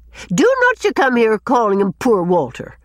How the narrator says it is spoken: said Susan indignantly

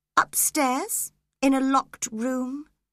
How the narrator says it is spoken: he replied calmly

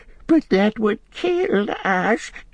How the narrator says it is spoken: whimpered Gollum

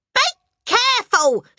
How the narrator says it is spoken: shrieked the mother

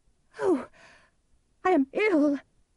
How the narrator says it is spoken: cried

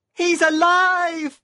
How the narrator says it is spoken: He screamed

